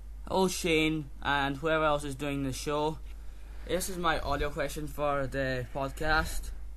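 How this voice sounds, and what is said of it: Slightly Scottish accent. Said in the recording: “has an interesting accent, if I do say so myself ... I think he sounds Scottish ... I think he sounds slightly Scottish”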